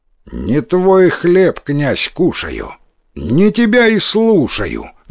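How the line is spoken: Plain. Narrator (Russian): говорит

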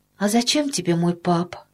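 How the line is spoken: Sad, surprised question. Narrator (Russian): грустно и удивленно спросила Тома

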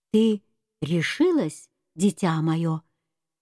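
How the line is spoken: Tender address. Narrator (Russian): Она нежно обратилась к фиалке

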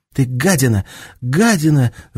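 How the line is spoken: Breathless shout. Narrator (Russian): задыхаясь, закричала Танюша Анжелке

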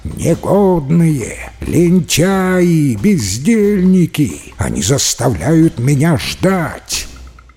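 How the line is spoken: Frantic, unrecognizable shout. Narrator (Russian): Чжао Байянь закричал не своим голосом

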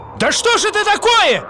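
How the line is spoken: Yelling. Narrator (Russian): завопил каменщик

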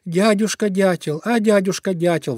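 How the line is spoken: Pleading. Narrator (Russian): взмолился Зайка Петя

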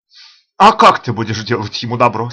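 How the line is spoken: Laughing question. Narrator (Russian): смеясь спрашивала Байт

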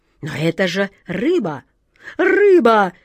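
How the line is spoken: Near-desperate exclamation. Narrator (Russian): почти с отчаянием воскликнула атаман Джина

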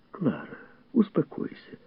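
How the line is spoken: Soothing admonishment. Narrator (Russian): увещевала Милдред

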